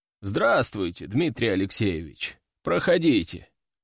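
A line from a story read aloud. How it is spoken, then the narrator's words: Lazy. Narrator (Russian): лениво говорит ректор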